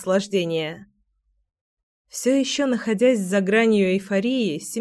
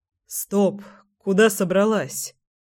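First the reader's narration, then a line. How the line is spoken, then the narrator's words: Hoarse command to stop. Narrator (Russian): Сипло остановил Семен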